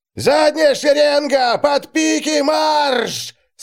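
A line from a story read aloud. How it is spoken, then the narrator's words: Terrible yell. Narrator (Russian): Страшно заорал он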